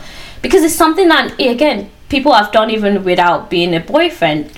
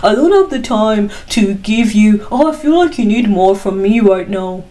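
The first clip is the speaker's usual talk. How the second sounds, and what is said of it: Bad imitation of another person's accent. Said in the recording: “I did a bad impression of his accent.”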